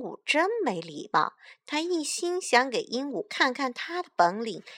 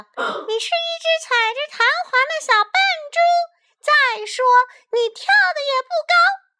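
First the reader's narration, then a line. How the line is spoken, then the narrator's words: Shrieking parrot. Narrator (Chinese): 鹦鹉尖叫道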